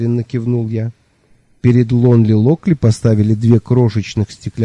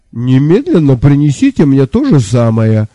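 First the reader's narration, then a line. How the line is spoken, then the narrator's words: Declaring while still laughing. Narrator (Russian): все еще смеясь, заявил Лонли Локли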